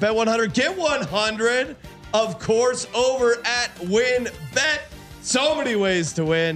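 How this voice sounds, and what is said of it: Usual voice. Nothing is said of it.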